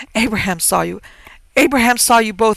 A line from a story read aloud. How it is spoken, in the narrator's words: interrupted her mother savagely